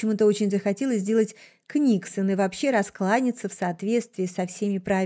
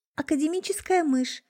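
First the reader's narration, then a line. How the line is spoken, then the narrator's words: Timid. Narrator (Russian): робко представилась я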